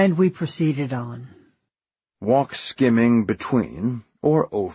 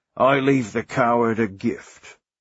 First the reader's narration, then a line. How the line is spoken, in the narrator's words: she grunted